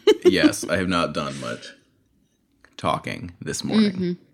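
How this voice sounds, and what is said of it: Deeper morning voice. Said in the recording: “your voice is a little deeper than usual ... You got the morning voice still.”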